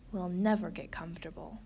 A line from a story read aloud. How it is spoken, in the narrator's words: sighed Slobby Dog